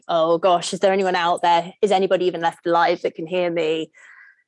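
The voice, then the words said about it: Put-on American accent. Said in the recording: “that was a great American accent”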